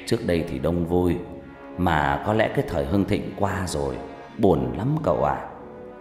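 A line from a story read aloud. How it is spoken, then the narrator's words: Old man's sigh. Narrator (Vietnamese): Ông già thở dài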